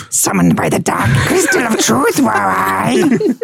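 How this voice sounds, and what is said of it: Impression of a Skeksis creature voice. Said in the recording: “Came in to do that impression.”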